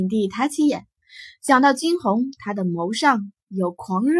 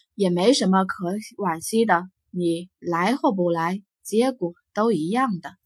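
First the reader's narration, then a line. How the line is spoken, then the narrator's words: Soft sigh. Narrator (Chinese): 景帝轻叹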